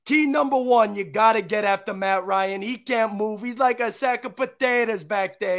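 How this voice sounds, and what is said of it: Put-on Sopranos-style mobster accent. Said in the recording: “Sopranos accent”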